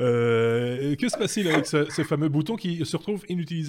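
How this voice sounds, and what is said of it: Usual voice. Nothing is said of it.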